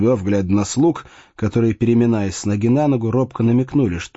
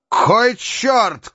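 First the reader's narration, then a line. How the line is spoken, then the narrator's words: Shout. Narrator (Russian): крикнул Фрондебёв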